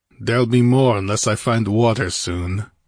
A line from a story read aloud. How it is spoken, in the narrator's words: growled the Cimmerian, his short store of patience about exhausted